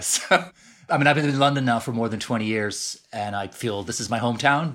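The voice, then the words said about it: Canadian English accent. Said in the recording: “Your accent's not terribly British ... I've clung to my Canadian accent as best I can”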